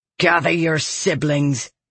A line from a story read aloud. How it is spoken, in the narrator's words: she growled